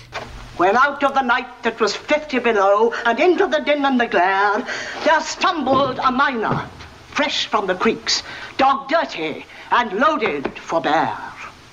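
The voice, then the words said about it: Plummy upper-class English accent. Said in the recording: “she's got this very plummy upper class English accent”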